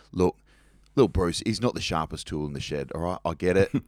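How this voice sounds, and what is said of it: Deliberately poor put-on Cockney accent. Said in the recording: “He was big Cockney fella ... sorry about my bad Cockney accent”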